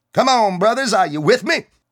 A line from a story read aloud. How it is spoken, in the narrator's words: the soldier called out